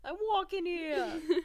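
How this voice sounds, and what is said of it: Put-on New York accent. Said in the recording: “that New York accent”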